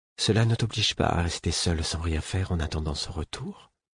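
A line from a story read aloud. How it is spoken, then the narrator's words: Whispered. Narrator (French): chuchota-t-elle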